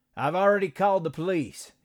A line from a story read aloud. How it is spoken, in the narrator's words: shouted